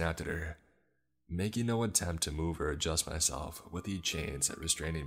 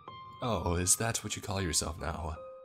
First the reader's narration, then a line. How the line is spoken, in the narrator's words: she replied, letting out a forced chuckle